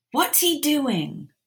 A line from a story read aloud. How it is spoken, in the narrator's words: Ron asked loudly